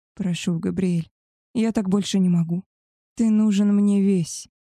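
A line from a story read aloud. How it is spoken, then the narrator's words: Moaning with pleasure. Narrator (Russian): простонала я, мечась по постели от ласк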